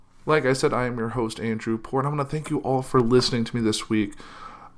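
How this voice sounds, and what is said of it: Hoarse, sick-sounding voice. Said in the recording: “My voice is a little hoarse, and I'm a little sick.”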